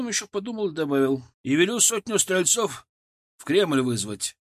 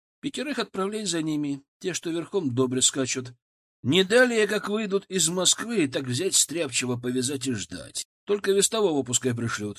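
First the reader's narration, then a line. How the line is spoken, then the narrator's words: Plain. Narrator (Russian): сказал я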